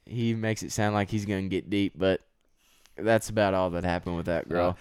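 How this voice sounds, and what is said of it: Deep Texas accent. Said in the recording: “what is that accent? ... that sounds a lot deeper ... I'm from Texas ... I really like that accent.”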